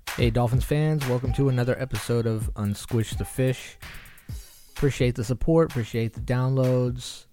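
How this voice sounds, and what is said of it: Slightly congested voice from a cold. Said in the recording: “if you could hear in my voice, I got a teeny bit of a cold I'm fighting”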